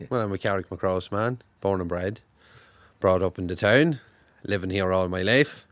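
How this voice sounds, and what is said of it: Monaghan Irish accent. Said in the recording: “Carrickmacross accent is particular. ... caught between the border, north and south. The more northern you go in Monaghan, you have a more northern accent.”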